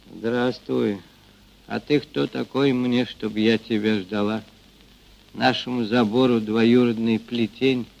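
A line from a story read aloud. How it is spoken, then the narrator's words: Rude reply. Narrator (Russian): грубо ответила Ильинична, негодующе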